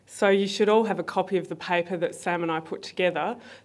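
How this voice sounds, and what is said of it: Slightly crumbling, unwell voice. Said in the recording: “I will admit I'm a little bit ill at the moment, so my voice is crumbling slightly”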